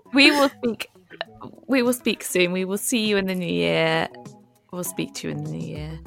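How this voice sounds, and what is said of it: Posh English accent. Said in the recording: “me and my posh accent”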